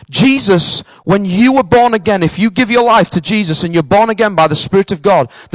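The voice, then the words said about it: Northern English accent. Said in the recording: “my accent is my accent. I'm a northerner. I've lived here in Cambridge longer than I've lived up north. But unfortunately, my accent is still there with me.”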